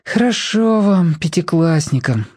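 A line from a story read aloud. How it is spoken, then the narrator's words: Sighing. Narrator (Russian): вздохнул Тоник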